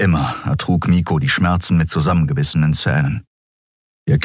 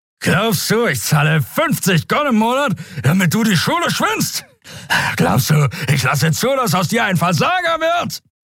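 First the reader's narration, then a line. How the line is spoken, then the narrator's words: Shout. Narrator (German): schrie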